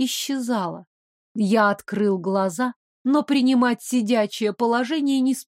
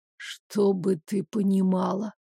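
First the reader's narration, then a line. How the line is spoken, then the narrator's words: Grumbling. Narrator (Russian): проворчал я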